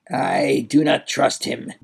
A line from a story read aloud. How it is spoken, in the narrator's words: growled the Duke